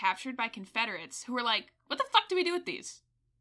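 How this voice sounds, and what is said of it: Usual voice. Nothing is said of it.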